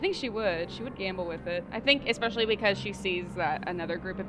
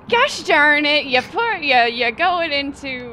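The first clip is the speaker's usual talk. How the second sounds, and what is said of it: Put-on Wisconsin accent. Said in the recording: “she also has now a Wisconsin accent”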